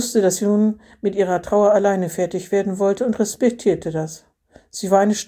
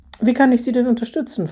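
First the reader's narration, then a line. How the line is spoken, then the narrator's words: Plain. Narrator (German): fragte er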